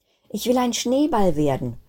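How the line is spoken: Calling out. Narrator (German): rief Kristallinchen

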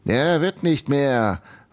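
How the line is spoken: Calling out. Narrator (German): rief Eisenbeißer

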